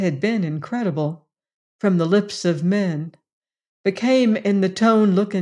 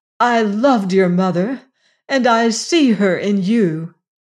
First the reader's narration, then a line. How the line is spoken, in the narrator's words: cried